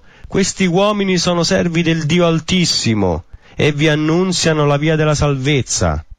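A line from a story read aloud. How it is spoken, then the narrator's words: Shouting. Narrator (Italian): gridava dicendo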